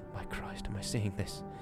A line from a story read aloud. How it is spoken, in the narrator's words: Jimmy whispered